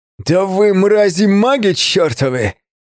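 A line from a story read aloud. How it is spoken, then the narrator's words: Furious roaring leader. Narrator (Russian): проревел лидер, и его лицо исказилось от ярости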